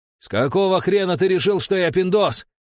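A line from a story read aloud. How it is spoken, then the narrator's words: Shouted back. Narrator (Russian): крикнул в ответ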